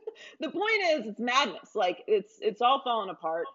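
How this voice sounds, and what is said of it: Usual voice. Nothing is said of it.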